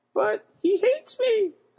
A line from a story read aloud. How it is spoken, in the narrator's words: I squeaked